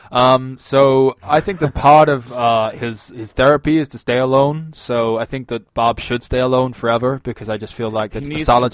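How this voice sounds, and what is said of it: Put-on San Diegan accent. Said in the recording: “I'm trying to draw on the San Diegan accent that I apparently picked up from Will Ferrell.”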